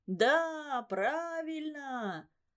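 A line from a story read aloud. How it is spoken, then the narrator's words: Crowd shouting. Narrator (Russian): закричала вся толпа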